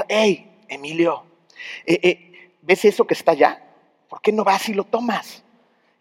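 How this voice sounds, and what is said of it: Whispering, tempting voice. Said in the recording (Spanish): “¿qué te va a susurrar? Te va a susurrar”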